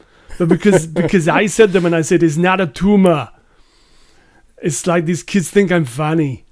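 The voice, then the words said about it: Terrible Arnold Schwarzenegger impression. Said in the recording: “I'll try and do it in an Arnie accent... That's a terrible, terrible Arnie accent.”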